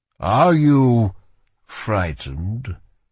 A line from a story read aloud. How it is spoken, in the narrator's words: His voice was deep and smooth and foreign